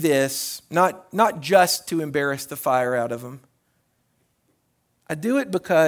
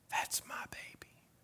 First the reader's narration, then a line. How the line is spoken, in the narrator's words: smile and I whisper